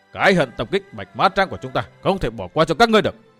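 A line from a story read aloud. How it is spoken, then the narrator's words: Two voices shouting. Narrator (Vietnamese): cả hai quát to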